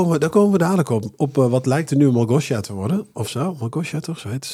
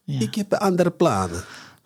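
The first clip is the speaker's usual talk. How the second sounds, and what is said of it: Put-on Eastern European accent. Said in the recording (Dutch): “Oost-Europese accent.”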